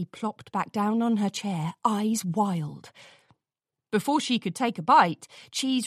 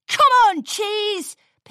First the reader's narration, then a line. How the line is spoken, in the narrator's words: Pinkie shouted